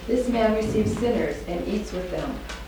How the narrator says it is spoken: the Pharisees and the scribes murmured, saying

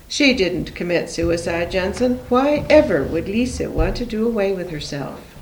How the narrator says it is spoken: He didn't shout, but his voice shook

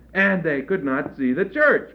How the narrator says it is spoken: cried the delighted Tomtas

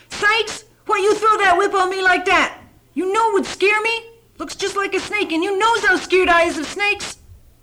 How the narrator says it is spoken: She screamed at him

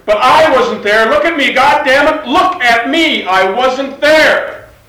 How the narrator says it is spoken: Then Richard shouted

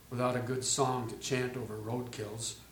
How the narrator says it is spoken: he muttered

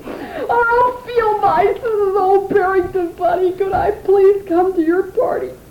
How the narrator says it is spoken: the wind was howling so loudly and Barrington was sobbing so much that no one heard him

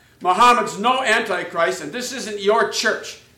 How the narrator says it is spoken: Freddie then shouted back

